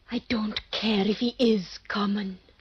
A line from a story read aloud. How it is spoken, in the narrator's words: she whispers to her salad-day deep self